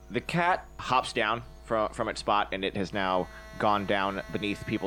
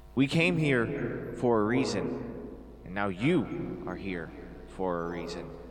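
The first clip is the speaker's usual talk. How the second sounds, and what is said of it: Stilted, overdubbed-sounding character voice. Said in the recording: “speaks with the same stilted language, the same overdubbed speech, and with only a slightly different tone and intonation of voice ... doing an imitation of the voice that you just heard”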